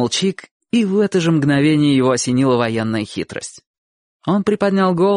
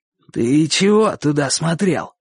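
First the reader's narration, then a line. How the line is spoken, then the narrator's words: Slightly hoarse question. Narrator (Russian): спросил он не так уж хрипло, как раньше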